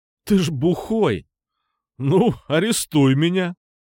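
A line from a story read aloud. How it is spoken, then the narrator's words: Mocking laughter. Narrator (Russian): Глумливо, как умел только он, рассмеялся Никитос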